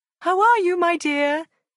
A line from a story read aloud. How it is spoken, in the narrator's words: the old lady cried cheerfully